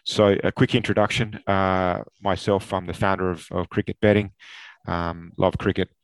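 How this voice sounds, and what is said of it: Australian accent. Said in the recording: “very, very big fan of Australia, as you can tell by my accent”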